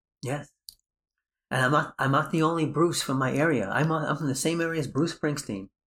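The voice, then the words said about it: Prominent New York accent. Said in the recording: “your New York accent is too prominent for that ... I speak with a New York accent. But I don't speak with a Brooklyn accent.”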